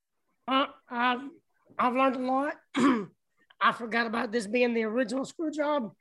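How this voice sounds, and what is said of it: Strained, fading voice. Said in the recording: “my voice is going out ... I'm tired of talking”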